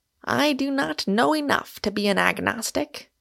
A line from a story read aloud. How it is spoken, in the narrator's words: he said rather wearily